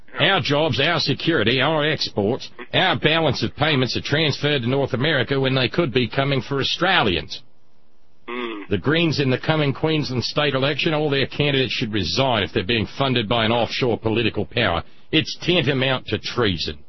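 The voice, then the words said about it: Imitates another person's voice, poor accent. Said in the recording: “My apologies for the crappy accent ... This is on the fly.”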